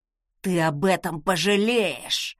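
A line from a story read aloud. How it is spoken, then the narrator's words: Hissed. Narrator (Russian): прошипел некромант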